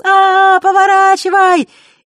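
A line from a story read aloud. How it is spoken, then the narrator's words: Ringing laughter. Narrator (Russian): заливисто смеялась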